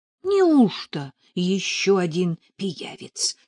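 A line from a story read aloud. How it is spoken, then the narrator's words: Whisper in ear. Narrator (Russian): шепнула на ухо Нелли Катя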